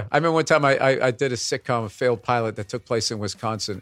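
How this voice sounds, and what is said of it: Boston accent. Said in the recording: “has a Boston accent ... how they explained away my accent was he went to BU”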